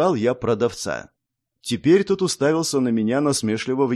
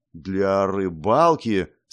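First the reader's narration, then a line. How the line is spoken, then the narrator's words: Doubtful drawn-out voice. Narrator (Russian): сомневающимся голосом протянул продавец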